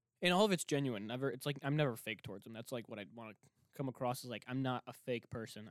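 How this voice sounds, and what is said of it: Breathless, out-of-breath rapid talking. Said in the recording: “oh my gosh, I have to breathe. ... I'm out of breath. I'm just out of breath. I just talk too much.”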